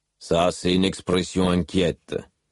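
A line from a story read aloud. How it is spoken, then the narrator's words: Rumbling growling voice. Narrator (French): commenta une voix grondante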